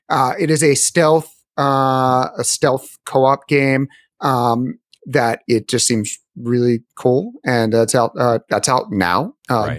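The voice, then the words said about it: Philadelphia accent. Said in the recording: “I have Philly accent.”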